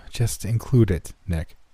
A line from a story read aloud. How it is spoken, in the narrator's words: Jason said with a sigh